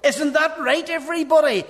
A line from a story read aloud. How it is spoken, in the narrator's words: He shouts at the class